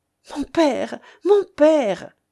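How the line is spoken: Pleading. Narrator (French): supplia Edmé

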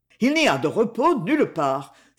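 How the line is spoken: Exclaimed. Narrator (French): s'écria-t-il

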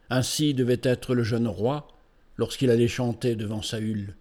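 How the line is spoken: Murmured. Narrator (French): murmura-t-il

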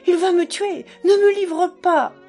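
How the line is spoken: Exclaiming. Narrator (French): s'écria-t-il

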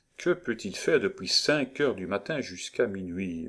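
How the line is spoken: Unconscious murmur. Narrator (French): murmura-t-il, sans savoir qu'il parlait

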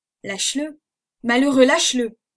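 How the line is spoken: Thundering shout. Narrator (French): s'écria-t-il d'une voix tonnante

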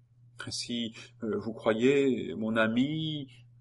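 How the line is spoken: Timid question. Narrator (French): demanda timidement Geneviève

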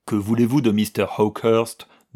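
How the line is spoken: Contemptuous question. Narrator (French): demanda l'homme d'un ton méprisant

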